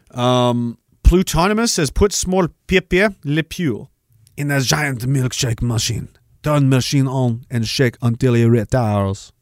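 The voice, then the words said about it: Inconsistent put-on French accent. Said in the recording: “I'm trying to find the French accent. I can't remember how to do it. It's in and out. It's in and out.”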